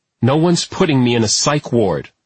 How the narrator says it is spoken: Aaliyah said, angrily

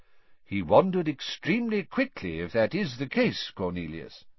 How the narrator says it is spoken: said Dumbledore calmly

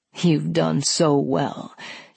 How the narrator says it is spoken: he praised

